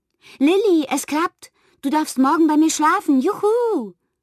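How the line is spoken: Excited call. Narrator (German): rief sie aufgeregt

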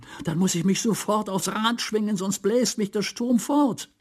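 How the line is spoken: Frightened cry. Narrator (German): rief Theodor erschrocken

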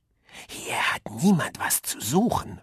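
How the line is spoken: Hissing. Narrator (German): fauchte er

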